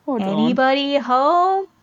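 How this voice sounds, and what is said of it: Impression of Dawn. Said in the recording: “That was my Dawn impression. ... I did a pretty good job, I think. ... Sound just like her.”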